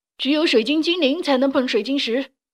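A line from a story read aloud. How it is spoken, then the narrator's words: King crying out. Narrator (Chinese): 雷古拉斯国王叫起来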